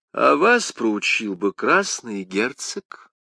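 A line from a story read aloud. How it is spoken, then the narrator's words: Calm remark. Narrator (Russian): спокойно заметил Арамис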